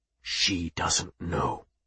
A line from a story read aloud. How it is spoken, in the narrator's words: Mado went on, his voice dropping to a whisper